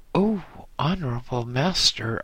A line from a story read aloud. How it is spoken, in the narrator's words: I exclaimed